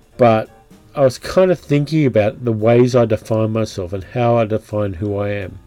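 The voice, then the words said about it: Australian accent. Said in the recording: “I know I'm Australian, and that's fairly obvious from the fucking accent.”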